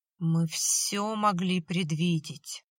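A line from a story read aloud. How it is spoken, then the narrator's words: Muttered through clenched teeth. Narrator (Russian): процедил сквозь зубы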